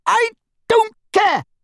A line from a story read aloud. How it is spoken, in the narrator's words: she screamed